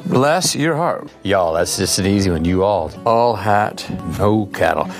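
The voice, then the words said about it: Put-on Texas accent. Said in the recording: “Women and men apparently love the Texas accent.”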